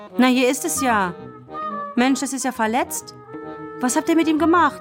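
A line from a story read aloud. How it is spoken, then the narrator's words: Sudden shout. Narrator (German): Kevin rief plötzlich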